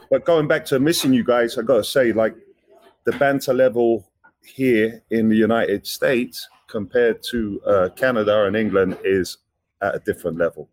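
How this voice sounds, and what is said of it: British accent. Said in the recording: “my accent ... British comedy doesn't translate ... they got used to the accent”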